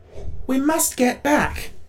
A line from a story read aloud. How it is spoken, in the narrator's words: exclaimed the Tin Woodman earnestly